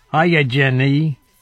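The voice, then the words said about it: Forrest Gump character voice. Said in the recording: “my Forrest Gump impression”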